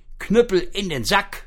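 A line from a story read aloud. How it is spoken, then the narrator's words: Calling out. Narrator (German): rief es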